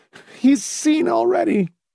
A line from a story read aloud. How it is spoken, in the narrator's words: Marcia said in a strained, choked voice